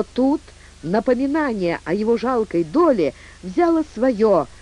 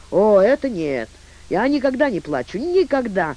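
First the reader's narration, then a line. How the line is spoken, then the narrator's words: Startled exclamation. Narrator (Russian): воскликнул он, словно его иголкой ткнули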